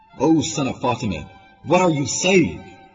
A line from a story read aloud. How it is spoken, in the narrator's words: Shame yelled